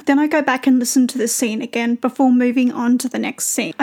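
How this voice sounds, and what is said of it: Australian female accent. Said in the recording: “the opposite of my accent... an accent similar to my own. So I'm very familiar with how Australian people pronounce things”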